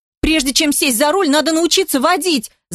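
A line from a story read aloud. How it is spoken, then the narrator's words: Woman yelling back. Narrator (Russian): заорала она в ответ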